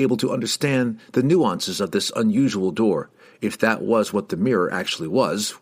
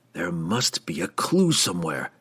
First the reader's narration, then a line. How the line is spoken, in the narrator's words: the drow groaned